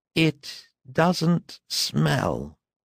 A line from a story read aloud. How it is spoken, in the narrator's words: said Lucien in a thick, small voice